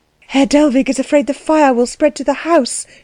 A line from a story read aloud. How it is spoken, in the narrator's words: she said breathlessly